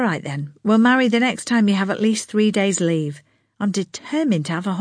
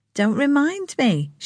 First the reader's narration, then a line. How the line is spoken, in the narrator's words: she said, chuckling